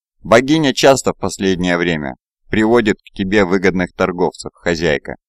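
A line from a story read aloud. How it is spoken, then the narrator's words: Plain. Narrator (Russian): сказал он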